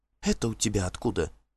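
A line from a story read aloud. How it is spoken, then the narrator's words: Whispered question. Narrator (Russian): шепотом спросила она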